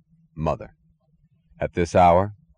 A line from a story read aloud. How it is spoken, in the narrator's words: He asked dryly